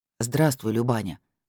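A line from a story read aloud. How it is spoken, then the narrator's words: Plain. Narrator (Russian): сказал он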